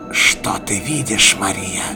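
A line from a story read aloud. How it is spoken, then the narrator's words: Menacing question. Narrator (Russian): грозно спросил рыцарь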